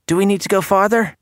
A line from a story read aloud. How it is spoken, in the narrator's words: a small Walden girl asked, her voice trembling